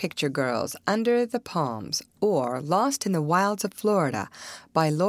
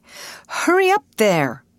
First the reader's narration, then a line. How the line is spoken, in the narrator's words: begged Alice